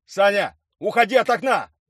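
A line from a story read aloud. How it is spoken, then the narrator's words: Shouting. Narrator (Russian): прокричал Юрий Николаевич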